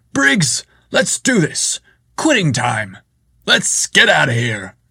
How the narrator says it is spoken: Chad called out in his booming voice

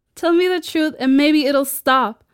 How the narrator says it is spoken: Greta shouted

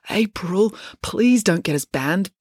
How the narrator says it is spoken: begged Joe

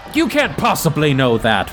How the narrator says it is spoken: a dwarf yells out

